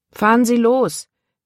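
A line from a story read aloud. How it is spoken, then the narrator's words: Calling out. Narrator (German): rief er dem Fahrer zu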